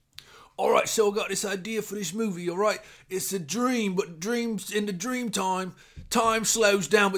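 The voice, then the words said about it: Imitates another person's voice. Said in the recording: “my impression of Christopher Nolan pitching Inception”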